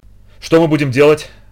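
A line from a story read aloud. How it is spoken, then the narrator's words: Desperate breathless gasp. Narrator (Russian): выдохнул в отчаянии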